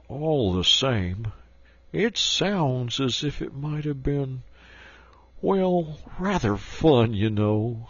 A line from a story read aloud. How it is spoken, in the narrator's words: he added wistfully